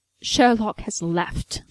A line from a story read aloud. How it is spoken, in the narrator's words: John spat out